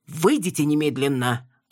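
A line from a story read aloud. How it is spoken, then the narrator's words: Snapping. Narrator (Russian): огрызнулся врач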